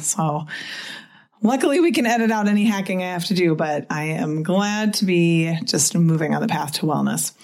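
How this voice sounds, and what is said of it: Voice still recovering from illness. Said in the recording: “My voice is getting better and better... The cough would not quit”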